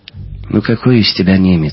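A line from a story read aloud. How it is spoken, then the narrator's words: Sighing. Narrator (Russian): вздохнул Жером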